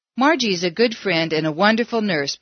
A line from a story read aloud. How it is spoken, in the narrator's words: said